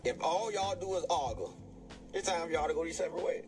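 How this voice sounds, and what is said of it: Thick accent. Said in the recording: “that accent so thick”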